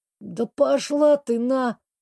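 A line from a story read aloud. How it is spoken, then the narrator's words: Grumbled, fairly clearly. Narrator (Russian): пробурчала Сандра довольно разборчиво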